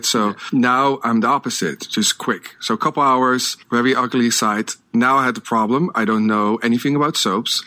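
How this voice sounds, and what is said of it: Non-native English accent. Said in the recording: “as you can hear, I have an accent. English is not my first language.”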